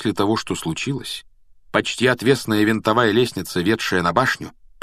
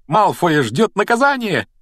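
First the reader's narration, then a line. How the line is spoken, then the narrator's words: Joyful shout. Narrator (Russian): радостно выкрикнула она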